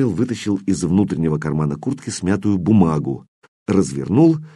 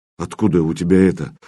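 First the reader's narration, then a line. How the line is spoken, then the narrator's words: Dejected question. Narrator (Russian): упавшим голосом спросил Кирилл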